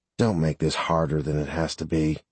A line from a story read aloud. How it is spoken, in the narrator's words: The second man quietly added